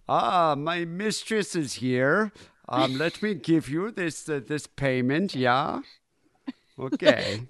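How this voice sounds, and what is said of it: Imitates another person's voice. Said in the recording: “your impression of him”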